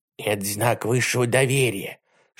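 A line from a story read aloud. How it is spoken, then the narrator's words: Whisper. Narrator (Russian): шепнул Колобок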